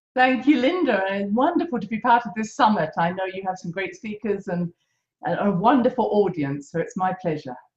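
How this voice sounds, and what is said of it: Beautiful accent. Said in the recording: “that amazing, beautiful accent”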